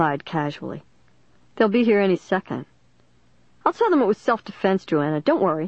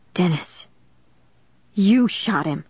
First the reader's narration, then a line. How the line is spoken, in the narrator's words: I cried in a hushed, shocked voice I'd never heard before